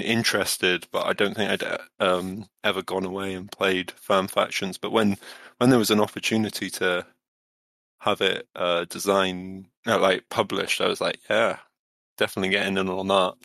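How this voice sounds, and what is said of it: English Midlands accent. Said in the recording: “English accent ... I do have a Midlands accent”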